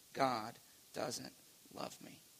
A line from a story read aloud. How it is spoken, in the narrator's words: whispering